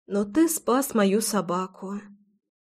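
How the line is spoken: Quiet. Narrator (Russian): тихо добавила я

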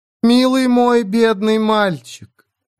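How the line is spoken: Honeyed voice. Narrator (Russian): медовым голосом произнесла

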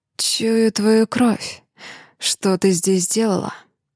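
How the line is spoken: Hoarse whisper. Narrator (Russian): Хрипло шепчет Дэмиан

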